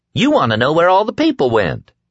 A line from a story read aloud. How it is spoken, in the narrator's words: Tom exclaimed